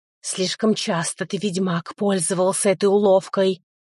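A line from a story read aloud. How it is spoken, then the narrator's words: Hissed. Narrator (Russian): прошипела Нага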